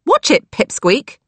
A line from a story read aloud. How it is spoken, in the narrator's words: Lily snapped